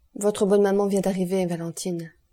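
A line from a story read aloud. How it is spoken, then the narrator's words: Plain. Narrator (French): dit M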